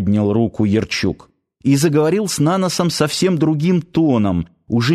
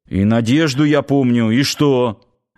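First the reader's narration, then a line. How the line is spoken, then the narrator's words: Muffled, strained composure. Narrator (Russian): начальник гарнизона, попытавшись хоть как-то взять себя в руки, глухо добавил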